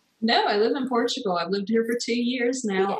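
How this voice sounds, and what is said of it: American accent. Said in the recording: “you have a US accent.”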